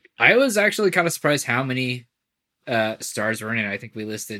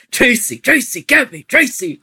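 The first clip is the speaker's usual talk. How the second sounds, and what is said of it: Shouted imitation of an actor's voice. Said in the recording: “Al Pacino just screams the whole time ... he is screaming the whole time ... Really good impression.”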